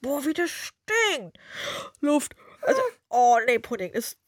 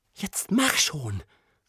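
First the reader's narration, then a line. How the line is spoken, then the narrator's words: Hissing. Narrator (German): zischte nun auch Prinzessin Morgenblüte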